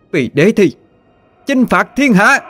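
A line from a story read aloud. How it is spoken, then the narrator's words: Thousands shouting in unison. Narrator (Vietnamese): Mấy ngàn người đồng thời hét to, ngay cả thiết kỵ binh cũng không ngoại lệ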